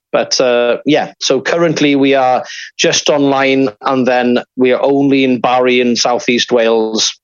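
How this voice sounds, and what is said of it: Welsh regional accent. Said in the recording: “I'm from Cardigan originally, hence the accent.”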